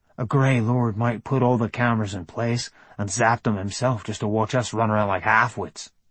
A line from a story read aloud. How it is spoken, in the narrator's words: muttered Tag